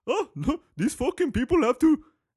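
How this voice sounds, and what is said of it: Put-on Indian accent. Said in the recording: “I know the Indians aren't involved, okay? But that's the accent I can do. I can't do the Arab one”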